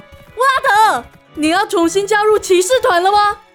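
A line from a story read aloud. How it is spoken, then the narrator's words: Overjoyed shout. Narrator (Chinese): 喜出望外的里里奇装对骑士大喊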